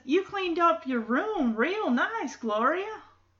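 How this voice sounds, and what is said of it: Put-on southern accent. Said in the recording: “I don't know why I'm trying to give Eddie a southern accent of sorts.”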